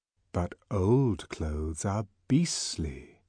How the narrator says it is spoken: continued the untiring whisper

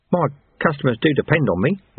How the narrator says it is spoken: Ronnie Soak mumbled

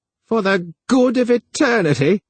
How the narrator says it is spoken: cried the gnomish computer in sudden excitement

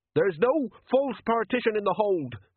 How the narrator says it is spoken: snapped Jenkins

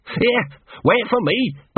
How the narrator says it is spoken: barked Gaspard

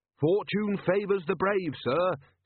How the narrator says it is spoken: said Carrot cheerfully

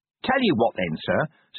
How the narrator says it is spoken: said Nobby cheerfully

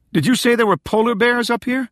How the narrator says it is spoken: she yelled over the wind

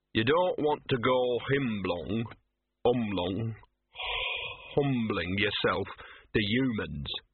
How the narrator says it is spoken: he said

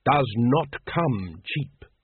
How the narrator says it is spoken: growled the Supreme Grand Master

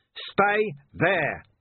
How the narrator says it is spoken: Vimes bellowed

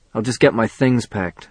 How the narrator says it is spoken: I said

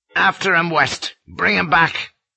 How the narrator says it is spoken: he snapped

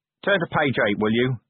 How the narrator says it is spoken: said Vimes grimly

